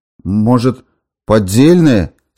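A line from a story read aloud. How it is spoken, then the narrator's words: Dejected voice. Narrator (Russian): спросил он упавшим голосом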